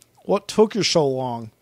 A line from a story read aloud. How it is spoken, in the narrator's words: he said